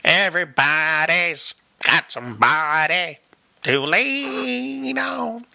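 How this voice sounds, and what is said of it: Imitates another person's singing voice. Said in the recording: “my Bob Dylan impression ... It's a good Bob Dylan version ... I felt like it was okay. I could have done better.”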